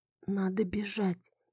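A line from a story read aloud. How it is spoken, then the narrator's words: Barely audible whisper. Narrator (Russian): еле слышно прошептала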